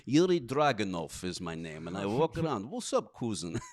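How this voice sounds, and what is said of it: Put-on Russian accent. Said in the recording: “Well, for a while I was doing Russian accent.”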